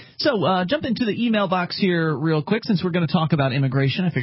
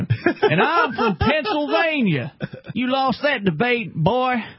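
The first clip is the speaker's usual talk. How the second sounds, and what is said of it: Put-on Southern accent. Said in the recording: “some stupid southern accent. ... I guess I'll affect that accent again”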